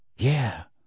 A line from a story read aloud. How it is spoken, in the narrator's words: said Harry quietly